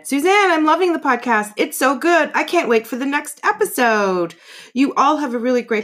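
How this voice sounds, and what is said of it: High-pitched girly voice. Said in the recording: “I'm doing her voice. She has a high pitched girly voice.”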